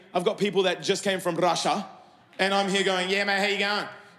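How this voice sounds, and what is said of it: Australian accent. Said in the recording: “a perfect Aussie accent”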